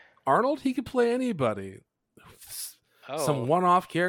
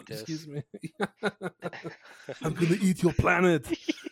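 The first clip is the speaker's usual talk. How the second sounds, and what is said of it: Imitates another person's voice. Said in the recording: “I think that's a really good impression.”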